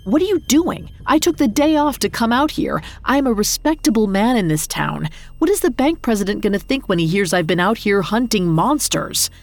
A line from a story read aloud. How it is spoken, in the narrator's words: laughed